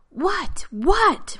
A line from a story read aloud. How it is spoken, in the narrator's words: Rodney screamed